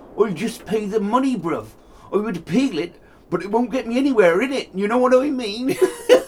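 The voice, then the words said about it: Put-on slangy 'bruv' street accent. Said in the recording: “That's so good with the bros in that accent. ... That is so good.”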